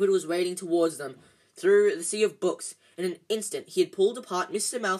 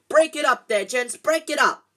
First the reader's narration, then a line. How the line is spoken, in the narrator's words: Cried the assistant, and then louder than all